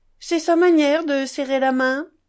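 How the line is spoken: Cheerful, shy. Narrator (French): observa gaiement Grushenka avec un sourire timide

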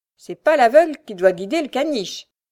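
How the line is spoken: Bitter sneer. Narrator (French): ricana-t-elle avec aigreur

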